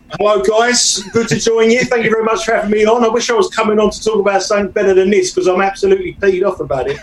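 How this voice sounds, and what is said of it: British accent. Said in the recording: “British guy who has the accent”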